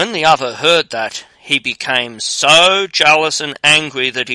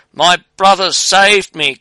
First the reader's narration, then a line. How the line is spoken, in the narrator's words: cried he